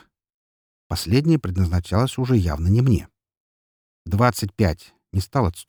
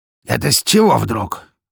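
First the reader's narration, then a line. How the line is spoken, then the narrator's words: Angry sneer, fat man. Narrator (Russian): Зло усмехнулся толстяк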